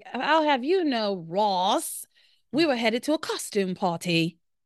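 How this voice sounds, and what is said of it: Bad put-on accent. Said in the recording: “my accent's so bad”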